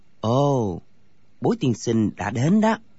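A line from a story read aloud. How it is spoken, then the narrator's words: Soft. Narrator (Vietnamese): Thạch Phá Thiên khẽ nói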